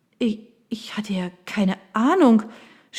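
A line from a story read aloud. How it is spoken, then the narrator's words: Stammering. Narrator (German): stotterte Mallory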